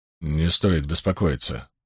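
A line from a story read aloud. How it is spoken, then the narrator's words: Muttering. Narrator (Russian): пробормотал он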